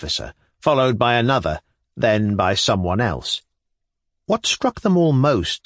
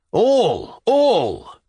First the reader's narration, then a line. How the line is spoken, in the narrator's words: cried the majority of voices